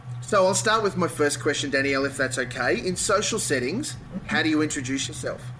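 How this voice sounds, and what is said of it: Rich Antipodean accent. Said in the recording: “my richly Antipodean accent”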